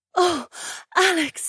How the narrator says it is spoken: She gasped, and she broke away for a breath while fine tremors shook her frame

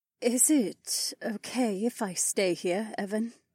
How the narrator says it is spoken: She asked in a timid tone

